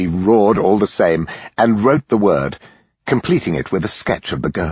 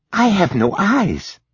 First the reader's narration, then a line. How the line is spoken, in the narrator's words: whispered